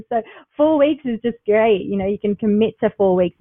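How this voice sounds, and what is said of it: Australian accent. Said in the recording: “you haven't lost the Australian accent. It's certainly still there”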